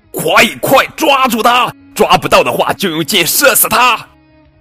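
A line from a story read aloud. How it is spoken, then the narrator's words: Loud roaring. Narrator (Chinese): 王爷大声咆哮道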